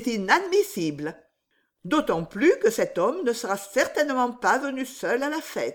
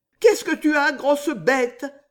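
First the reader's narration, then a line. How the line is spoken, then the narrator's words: Exclaimed. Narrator (French): s'écria Riquette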